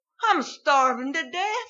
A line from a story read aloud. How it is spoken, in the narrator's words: he gasped